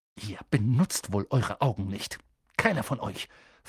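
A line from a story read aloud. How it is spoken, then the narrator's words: Hissing snap. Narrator (German): fauchte sie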